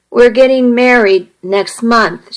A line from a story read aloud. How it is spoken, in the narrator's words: she said